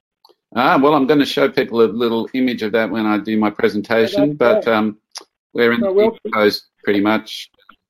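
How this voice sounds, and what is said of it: Australian accent. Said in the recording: “I can tell by the accent that I think you're from either Norway or Sweden. Oh, no. I think it's Australia.”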